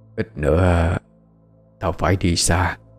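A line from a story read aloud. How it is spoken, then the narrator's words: Soft instruction. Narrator (Vietnamese): khẽ dặn dò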